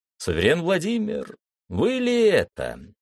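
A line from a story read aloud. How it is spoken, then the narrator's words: Cheerful shout. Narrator (Russian): весело крикнул я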